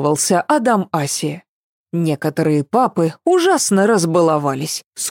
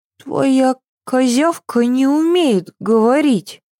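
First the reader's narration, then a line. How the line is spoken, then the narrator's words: Uncertain drawl. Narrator (Russian): неуверенно протянула Ева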